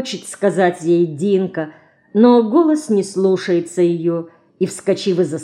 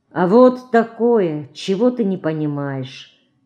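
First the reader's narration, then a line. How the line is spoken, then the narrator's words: Quiet reply. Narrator (Russian): Тихо отвечает ей сестра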